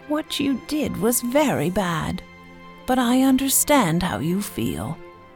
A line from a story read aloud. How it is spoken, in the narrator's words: she said